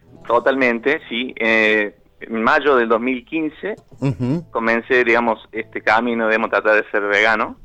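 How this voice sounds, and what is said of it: Regional Argentine-style accent. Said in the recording (Spanish): “Ay, cómo me gusta ... esta tonada. ... Amo tu tonada”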